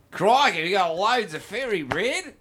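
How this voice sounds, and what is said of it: Put-on Australian accent. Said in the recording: “Finally, the accent actually works.”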